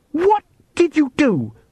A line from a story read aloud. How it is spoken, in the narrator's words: she gasped